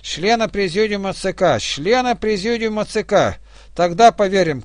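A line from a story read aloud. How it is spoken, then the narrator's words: Prisoners shouting. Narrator (Russian): кричали зэки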